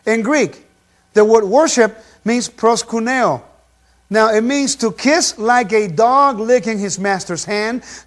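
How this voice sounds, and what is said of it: Non-native English accent. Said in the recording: “I hope you pardon my accent here. Okay, some words I still have problems with. Hey, not bad for learning English when I was 14, 15 years old”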